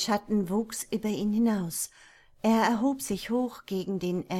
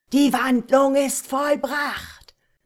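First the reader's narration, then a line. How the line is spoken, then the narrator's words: Shouting outward. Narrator (German): schrie Hisoma in die Landschaft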